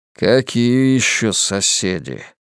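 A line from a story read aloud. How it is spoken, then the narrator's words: Grumbling. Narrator (Russian): проворчал Генри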